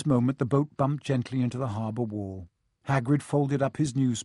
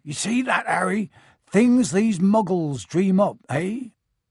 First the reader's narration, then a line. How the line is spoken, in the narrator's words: Hagrid twice as tall as anyone else, he kept pointing at perfectly ordinary things like parking meters and saying loudly